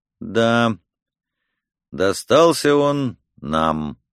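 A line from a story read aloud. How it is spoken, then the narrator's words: Slow speech. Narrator (Russian): медленно произнес Келлер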